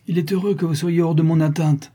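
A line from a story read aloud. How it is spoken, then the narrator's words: Exclamation. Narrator (French): s'écria-t-il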